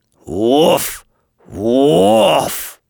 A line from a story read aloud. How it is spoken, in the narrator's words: said he in his deepest, most grumbly-rumbly voice